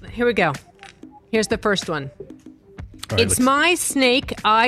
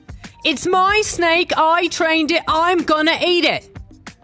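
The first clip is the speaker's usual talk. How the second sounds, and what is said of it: Put-on Australian accent. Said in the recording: “Do you want it with the accent or without the accent? ... in character ... That's a British accent, I believe ... And it's an Australian accent.”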